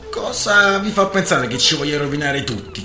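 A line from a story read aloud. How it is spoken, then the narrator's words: Plain. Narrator (Italian): chiese De Graaf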